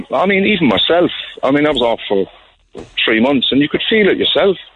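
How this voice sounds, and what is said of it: Cork Irish accent. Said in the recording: “you can tell you're from Cork. There's a little touch of Roy Keane there in the accent”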